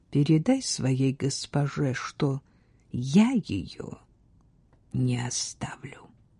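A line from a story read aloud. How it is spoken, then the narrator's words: Quiet. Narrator (Russian): король тихо сказал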